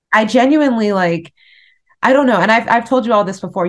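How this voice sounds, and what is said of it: Emotional, choked-up voice. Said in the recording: “getting emotional”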